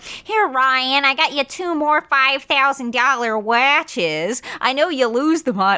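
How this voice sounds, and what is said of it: Exaggerated Minnesota Midwestern accent. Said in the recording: “She's got this awful Midwestern accent, too. Sounds like fucking, if you just injected someone with Minnesota”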